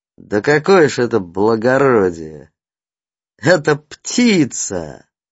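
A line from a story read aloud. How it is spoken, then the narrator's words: Mocking. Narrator (Russian): насмешливо называли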